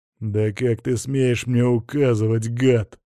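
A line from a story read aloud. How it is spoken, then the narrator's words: Growled. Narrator (Russian): прорычал граф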